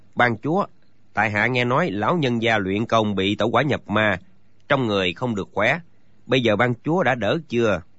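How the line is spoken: Soft question. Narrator (Vietnamese): Triển Phi khẽ cất tiếng hỏi

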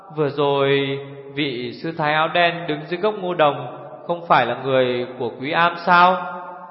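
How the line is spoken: Stammering. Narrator (Vietnamese): Chốc sau chàng mới lắp bắp

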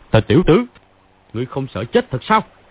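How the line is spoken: Shout. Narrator (Vietnamese): Phàn Nhất Ông quát

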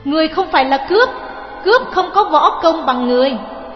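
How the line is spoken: Shouted. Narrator (Vietnamese): Phương Dung quát

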